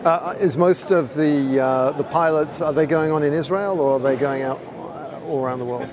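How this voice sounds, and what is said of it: British accent. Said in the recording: “I just happen to have a British accent.”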